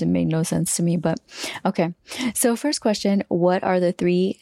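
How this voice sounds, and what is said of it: Usual voice. Nothing is said of it.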